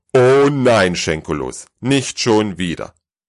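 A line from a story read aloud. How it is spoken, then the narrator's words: Loud booming rumble. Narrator (German): polterte der Weihnachtsmann so stark, dass selbst die Rentiere im angrenzenden Stall einen Schreck bekamen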